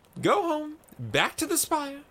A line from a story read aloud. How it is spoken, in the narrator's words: cried Maiko